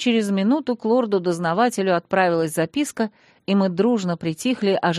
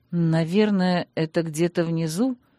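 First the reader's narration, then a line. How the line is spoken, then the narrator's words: Muttering. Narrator (Russian): пробормотала я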